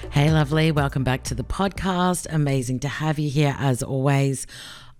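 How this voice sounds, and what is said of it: Strained, nearly lost voice. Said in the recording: “I am almost losing my voice.”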